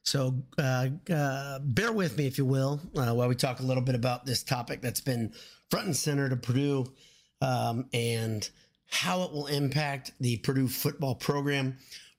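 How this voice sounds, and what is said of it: Slightly ill, congested-sounding voice. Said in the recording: “I've been a little bit ill actually because of allergies. You can hear it in my voice.”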